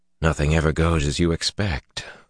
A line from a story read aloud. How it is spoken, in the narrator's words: Luz Theron murmured